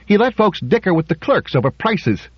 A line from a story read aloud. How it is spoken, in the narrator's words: chirped Zimmerman